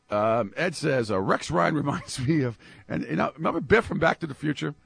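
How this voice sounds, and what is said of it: Strained voice cutting in and out. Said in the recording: “I'm going to try my voice. I'm trying, Kevin. This is tough. ... It comes in and out. ... Yeah, it's in and out.”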